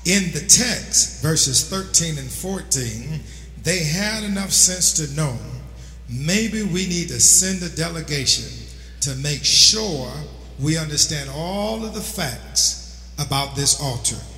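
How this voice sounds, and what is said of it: New York accent. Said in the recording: “My New York accent might be messing this up for your ear”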